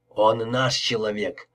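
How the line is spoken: Through gritted teeth. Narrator (Russian): проговорил сквозь зубы

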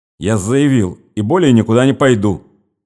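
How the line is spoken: Angry. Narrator (Russian): сердито проговорил Нехлюдов

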